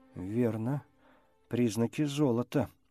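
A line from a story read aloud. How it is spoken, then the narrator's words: Uncertain. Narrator (Russian): неуверенно согласился Крэндалл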